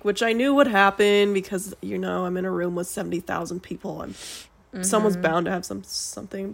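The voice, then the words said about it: Sick-sounding voice. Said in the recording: “I don't know if you can tell in my voice, but I'm sick.”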